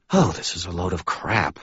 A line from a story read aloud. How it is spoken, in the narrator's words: muttered